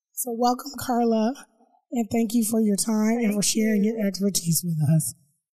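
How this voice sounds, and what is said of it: Muffled, raspy voice. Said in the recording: “I sound so different and it's a little muffled... I lost my voice for a couple of weeks... I still sound a little raspy and a little bad”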